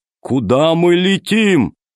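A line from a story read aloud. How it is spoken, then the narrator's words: Shouted from below. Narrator (Russian): Зеленый закричал снизу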